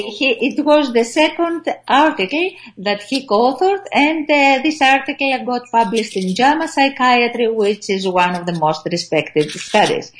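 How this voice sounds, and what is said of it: Greek accent. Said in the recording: “Forgive our Greek accent”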